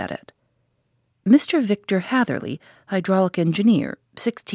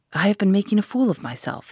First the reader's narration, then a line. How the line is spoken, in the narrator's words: he gasped